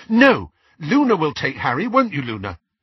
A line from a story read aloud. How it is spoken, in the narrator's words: Ginny said rather fiercely